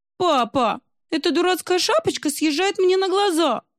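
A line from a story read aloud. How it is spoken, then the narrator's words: Whining. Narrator (Russian): захныкала русалка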